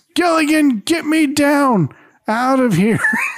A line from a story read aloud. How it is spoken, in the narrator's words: Skipper shouts